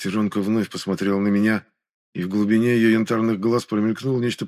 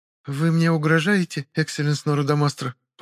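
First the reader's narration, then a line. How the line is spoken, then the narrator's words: Almost calm. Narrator (Russian): Почти спокойно спросила Серый Рыцарь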